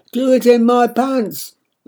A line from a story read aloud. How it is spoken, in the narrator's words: I shout back